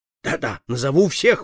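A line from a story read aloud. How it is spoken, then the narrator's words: Exclaimed. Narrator (Russian): воскликнул он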